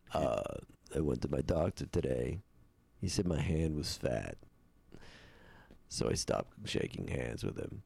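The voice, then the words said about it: Steven Wright impression. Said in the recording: “Can do a Stephen Wright.”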